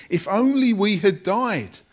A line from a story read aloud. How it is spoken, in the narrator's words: they cried